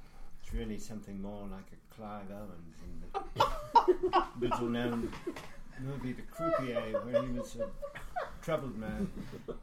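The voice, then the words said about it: Unconvincing put-on British accent. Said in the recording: “Can you do an English accent? ... Searching for the ideal British accent ... Unconvincing.”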